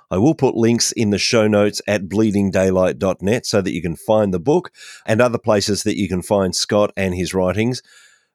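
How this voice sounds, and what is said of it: Australian accent. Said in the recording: “I love to hear that Australian accent.”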